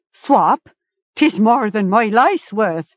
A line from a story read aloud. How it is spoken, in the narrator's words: Carrick laughed